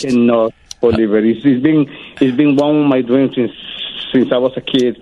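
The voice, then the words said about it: Guatemalan Latino accent in English. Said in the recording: “I don't have your accent, Nestor ... I speak English with a very sexy Latino accent”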